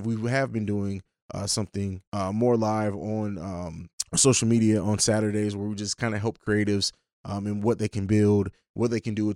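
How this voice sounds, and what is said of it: Strained, fading voice. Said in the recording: “I think I'm losing my voice,”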